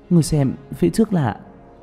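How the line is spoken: Trembling. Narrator (Vietnamese): Tạ Vũ Tình run rẩy

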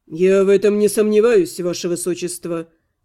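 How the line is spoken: Calm reply. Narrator (Russian): спокойно откликнулся магистр

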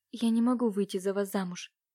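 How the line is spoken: Sad sigh. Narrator (Russian): печально выдохнула Катюша

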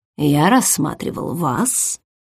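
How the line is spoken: Quiet. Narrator (Russian): тихо произнес он

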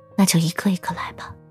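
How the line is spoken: Near murmur. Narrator (Chinese): 秦冉几乎喃喃地开口

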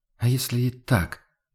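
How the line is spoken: Quiet reply. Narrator (Russian): откликнулся Хагнар тихо

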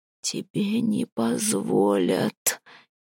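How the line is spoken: Barely audible rustle. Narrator (Russian): едва слышно прошелестел он

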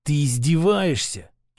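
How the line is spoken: Venomous hiss. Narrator (Russian): чуть ли не змеей прошипел он

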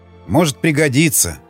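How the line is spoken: Plain. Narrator (Russian): сказал

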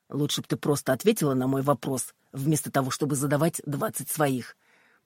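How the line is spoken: Grumbling. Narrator (Russian): проворчал сержант

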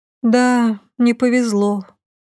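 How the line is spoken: Sigh. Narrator (Russian): вздохнула

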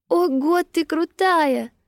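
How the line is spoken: Admiring exclamation. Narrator (Russian): восхищенно воскликнула она

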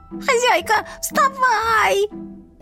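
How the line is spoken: Panicked yell in ear. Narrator (Russian): Панически заорали мне на ухо

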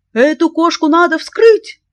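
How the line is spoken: Shouted after stunned silence. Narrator (Russian): закричал он, когда к нему вернулся дар речи

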